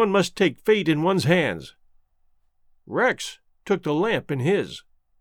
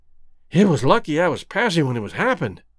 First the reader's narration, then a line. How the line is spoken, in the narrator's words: panted Rex